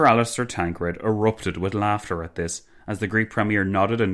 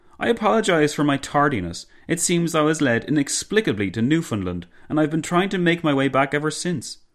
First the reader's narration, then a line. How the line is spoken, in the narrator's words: the Greek premier exclaimed